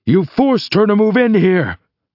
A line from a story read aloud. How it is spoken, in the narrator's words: I shout